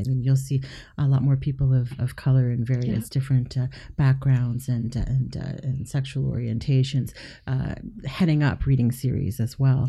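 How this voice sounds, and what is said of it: Smooth, pleasant radio-style voice. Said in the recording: “What a nice radio voice you have.”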